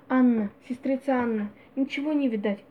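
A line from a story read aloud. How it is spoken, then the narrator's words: Quiet call. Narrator (Russian): отвечала жена и тихо окликнула сестру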